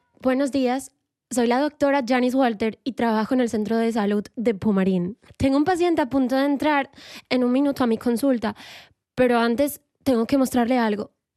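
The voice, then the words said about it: Put-on Colombian Spanish accent. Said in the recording (Spanish): “uno de los acentos que más me gusta imitar, que es el colombiano”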